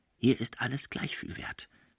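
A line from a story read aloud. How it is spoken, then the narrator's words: Sly whisper. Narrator (German): flüsterte der Jude listig dem Auvergnaten ins Ohr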